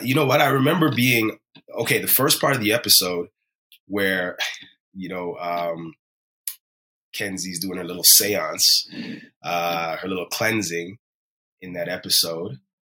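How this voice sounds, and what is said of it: Hoarse, fading voice. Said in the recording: “I'm losing my voice a bit because just from the filming and the late night”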